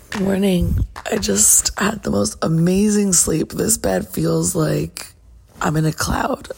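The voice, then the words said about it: Just-woke-up morning voice. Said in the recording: “as you can hear, this is how my voice sounds when I wake up in the morning”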